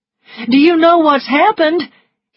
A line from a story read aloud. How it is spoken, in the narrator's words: He cried